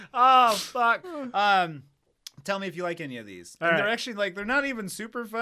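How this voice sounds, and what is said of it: Usual voice. Nothing is said of it.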